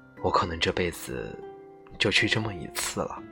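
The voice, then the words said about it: Very quiet, soft speech. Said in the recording (Chinese): “特小声地说”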